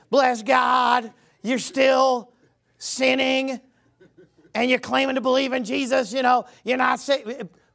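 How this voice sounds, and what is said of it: Put-on Southern accent, preacher voice. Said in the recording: “I always do a Southern accent when I impersonate false gospel”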